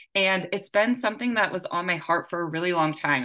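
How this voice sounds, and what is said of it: Excited, passionate voice. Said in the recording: “hear it in my voice how excited and passionate I am”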